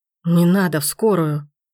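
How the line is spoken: Hoarse, muffled wheeze. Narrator (Russian): Хрипит все так же, прикрывая лицо

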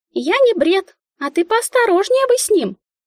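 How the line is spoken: Squeaky little one. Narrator (Russian): пропищала малявка

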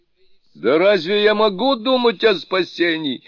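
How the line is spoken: Angry monster's exclamation. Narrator (Russian): гневно воскликнуло чудовище

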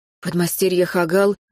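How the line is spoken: Timid smiling. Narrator (Russian): робко улыбнулся он

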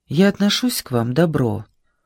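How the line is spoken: Plain. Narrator (Russian): сказал Исаев Сашеньке

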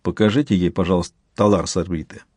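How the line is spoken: Quiet. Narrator (Russian): Сварог негромко сказал доктору

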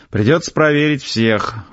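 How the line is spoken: Fake sigh. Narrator (Russian): фальшиво вздохнул

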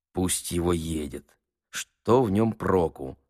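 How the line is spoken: Quiet aside. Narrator (Russian): сказал тихо Чичиков Ноздреву

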